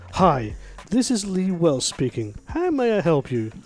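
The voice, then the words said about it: Polite phone-answering voice. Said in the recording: “give me your best answering voice”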